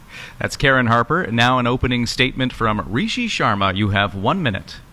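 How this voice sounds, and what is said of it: Polished radio announcer voice. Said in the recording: “what a fantastic radio voice you have”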